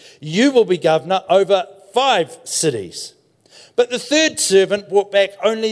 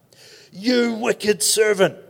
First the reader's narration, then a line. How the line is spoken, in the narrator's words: the king roared